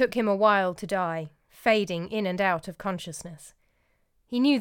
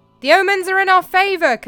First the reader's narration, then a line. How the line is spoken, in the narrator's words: Callimachus cried